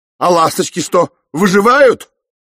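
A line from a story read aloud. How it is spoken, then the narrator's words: Offended shout. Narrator (Russian): обиженно крикнул Рейн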